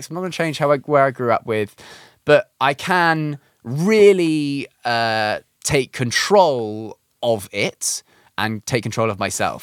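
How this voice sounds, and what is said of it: Posh British accent. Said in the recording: “my accent to an American audience is like, oh, it's this British guy ... in the UK, like, I talk and it's like, oh, this guy is posh”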